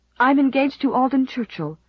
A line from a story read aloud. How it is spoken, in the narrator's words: said Stella desperately